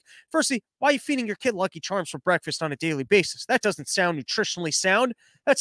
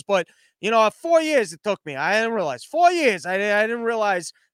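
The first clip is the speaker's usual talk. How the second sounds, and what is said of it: Put-on accent. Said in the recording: “I don't know why I'm doing this accent. It's just what I envision this person sounds like.”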